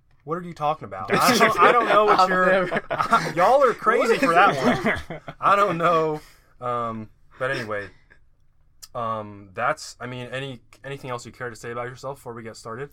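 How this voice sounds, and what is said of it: Southern Alabama accent. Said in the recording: “I can hear the accent... Alabama”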